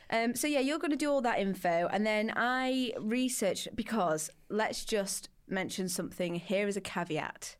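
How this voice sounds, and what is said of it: Doncaster English accent. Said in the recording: “you got my lovely accent ... From Doncaster.”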